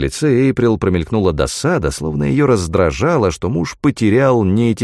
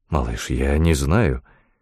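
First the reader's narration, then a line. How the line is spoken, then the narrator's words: Soft, joyful. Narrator (Russian): мягко ответил Фрэнк, чувствуя, как сердце набухло радостью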